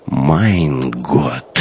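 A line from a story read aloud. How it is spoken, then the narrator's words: Numb-lipped whisper. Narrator (Russian): онемевшими губами прошептал оберштурмбанфюрер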